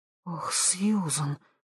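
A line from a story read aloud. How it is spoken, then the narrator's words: Whisper. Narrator (Russian): прошептала Хелен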